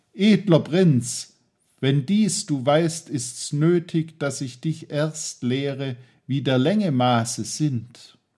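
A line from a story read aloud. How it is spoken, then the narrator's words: Wise man calling out. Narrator (German): rief hier der Weise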